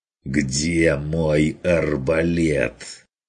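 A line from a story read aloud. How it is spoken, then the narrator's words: Hunter's strained hissing repeat. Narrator (Russian): Уже на пределе шипения повторил охотник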